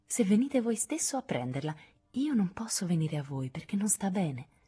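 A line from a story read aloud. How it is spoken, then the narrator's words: Honeyed voice. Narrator (Italian): rispose con voce melata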